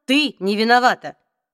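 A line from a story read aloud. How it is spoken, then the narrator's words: Sharp interruption. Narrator (Russian): резко оборвал ее Алик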